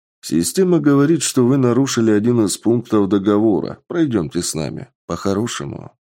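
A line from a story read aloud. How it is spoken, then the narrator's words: Plain. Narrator (Russian): ответил патрульный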